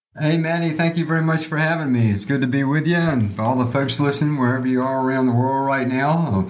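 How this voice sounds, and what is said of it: Slow Southern US accent. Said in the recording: “I love your accent... it's a southern accent... the accent sort of stuck around because it's got that slow southern accent”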